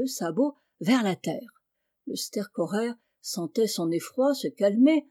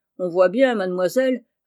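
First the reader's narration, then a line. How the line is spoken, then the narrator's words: Gruff retort. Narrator (French): répliqua d'un ton bourru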